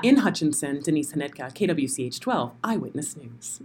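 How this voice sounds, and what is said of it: TV news reporter sign-off voice. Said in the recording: “to do my reporter voice ... do your sign off”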